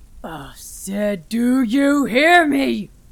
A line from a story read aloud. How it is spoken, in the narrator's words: He shouted into the darkness